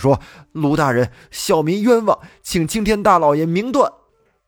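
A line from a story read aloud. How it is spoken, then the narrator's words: Loud pleading cry. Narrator (Chinese): 他 高声喊道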